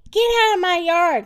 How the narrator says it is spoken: shouted Eugenia

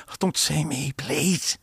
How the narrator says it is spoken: he whispered

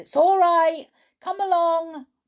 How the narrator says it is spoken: He yelled

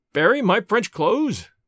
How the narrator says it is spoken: cried

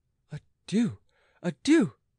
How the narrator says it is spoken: cried the queen

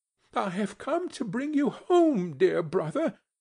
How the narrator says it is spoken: said the child

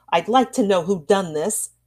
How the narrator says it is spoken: she said, looking sternly

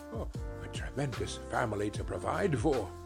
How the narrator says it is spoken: muttered Scrooge

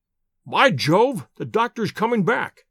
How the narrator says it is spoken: cried Holmes

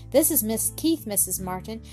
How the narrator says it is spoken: she said

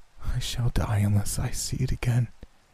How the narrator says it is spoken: he said, in a quiet voice not like his own

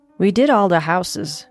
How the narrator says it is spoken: Michael said

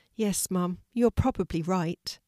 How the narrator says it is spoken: Kelti sadly agreed

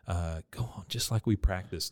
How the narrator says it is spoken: she whispers in Buckley's ears

